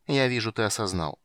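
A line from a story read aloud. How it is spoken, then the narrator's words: Cold statement. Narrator (Russian): холодно констатировал темный эльф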